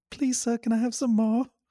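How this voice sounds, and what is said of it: High-pitched English child voice, Oliver Twist. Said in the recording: “I had an English accent... They called me Oliver because I had a you know, I just had a high voice.”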